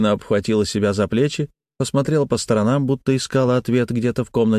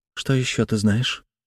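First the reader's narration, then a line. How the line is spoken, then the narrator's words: Quiet young woman. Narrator (Russian): тихо спросила девушка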